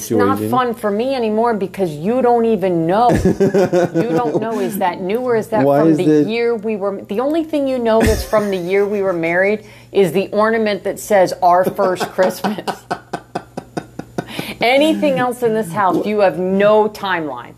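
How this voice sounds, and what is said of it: New York accent, aggressive tone. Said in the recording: “Why did the New York accent come out during that? ... It happens when I get aggressive.”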